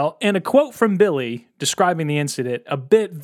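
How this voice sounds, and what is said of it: Usual voice. Nothing is said of it.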